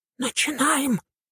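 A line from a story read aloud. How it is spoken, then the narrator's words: Whispering she-devil. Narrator (Russian): прошептала дьяволица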